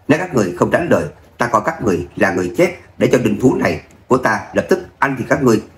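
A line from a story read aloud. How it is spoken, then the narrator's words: Soft chuckle, teasing. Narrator (Vietnamese): Người trên người cự điểu tự hồ hiểu được suy nghĩ của bọn họ, không khỏi cười khẽ một tiếng, trêu tức nói ra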